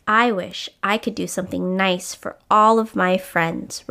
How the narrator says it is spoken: Rubble answered

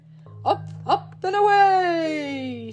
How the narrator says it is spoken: shouted Santa

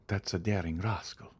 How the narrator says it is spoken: whispered the Count

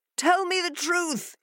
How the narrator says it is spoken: he cried

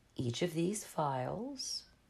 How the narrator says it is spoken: said, keeping his voice even

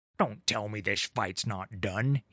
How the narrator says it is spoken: snapped

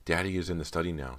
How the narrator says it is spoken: said nervously

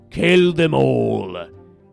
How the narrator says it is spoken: roared

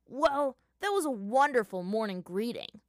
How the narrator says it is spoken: Sokka spat at them

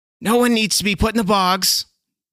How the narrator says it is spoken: Nessica pleaded

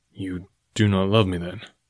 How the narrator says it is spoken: he asked in a level tone

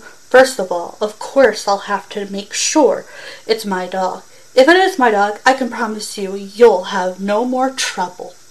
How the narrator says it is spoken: Whirlpool said sharply into the phone

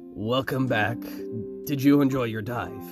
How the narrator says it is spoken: the stubbled-faced man chuckled

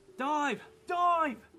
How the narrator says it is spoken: he was already screaming

